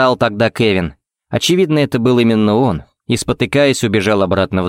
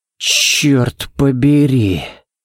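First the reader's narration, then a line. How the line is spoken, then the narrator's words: Breathy exclamation. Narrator (Russian): Выдохнул Балок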